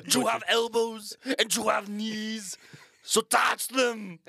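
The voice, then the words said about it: Poor put-on German accent. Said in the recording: “That's our attempt at German accents. ... Yeah, we are horrible.”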